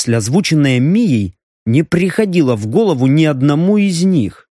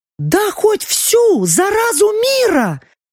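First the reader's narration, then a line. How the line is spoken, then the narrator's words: Exclaimed. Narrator (Russian): воскликнула Лаура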